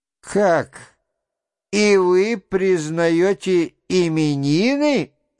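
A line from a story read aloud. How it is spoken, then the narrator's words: Sudden laughter. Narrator (Russian): засмеялась вдруг студентка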